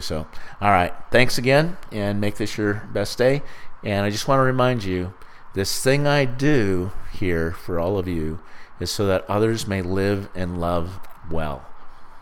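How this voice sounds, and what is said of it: Hoarse, failing voice. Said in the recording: “I've been sick this last couple, like last month... my voice is going too.”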